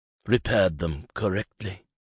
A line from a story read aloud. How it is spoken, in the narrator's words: Alan finished grimly